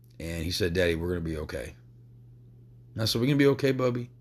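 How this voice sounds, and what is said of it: Emotional, choked-up voice. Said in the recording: “I don't mean to get emotional”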